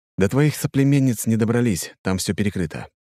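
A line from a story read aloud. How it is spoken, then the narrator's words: Sighing. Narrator (Russian): вздохнул я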